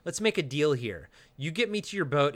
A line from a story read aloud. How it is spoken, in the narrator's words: Finnegan says